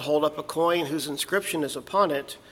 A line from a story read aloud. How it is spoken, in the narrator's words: they said